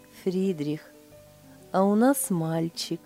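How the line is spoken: Blissful, smiling. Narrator (Russian): Блаженно улыбаясь, Лиля сказала

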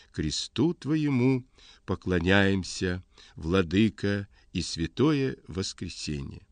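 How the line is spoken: Quiet singing to himself. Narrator (Russian): напевал тихо так про себя

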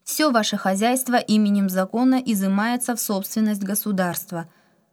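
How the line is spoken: Loud official. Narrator (Russian): громко добавил руководитель оперативной группы

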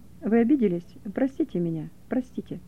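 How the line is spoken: Quiet. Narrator (Russian): тихо сказал

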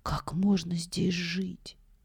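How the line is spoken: Whisper. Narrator (Russian): одна из них шепнула другой

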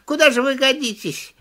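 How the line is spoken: Choking with laughter. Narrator (Russian): стал хохотать, чуть было не захлебнулся

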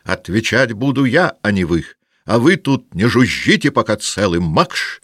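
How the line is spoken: Angry shout. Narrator (Russian): крикнул он на офицеров

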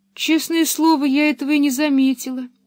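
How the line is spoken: Sad. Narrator (Russian): печально добавила она

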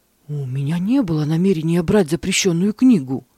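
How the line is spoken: Frightened monk answering. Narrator (Russian): испуганно ответил монах

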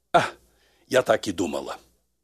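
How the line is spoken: Sighing. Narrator (Russian): глубоко вздохнула и сказала

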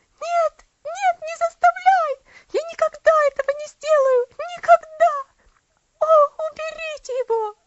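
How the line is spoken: Terrified scream. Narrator (Russian): закричала она

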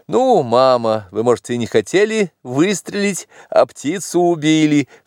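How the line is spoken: Laughing exclamation. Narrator (Russian): вскричал я, тоже рассмеявшись

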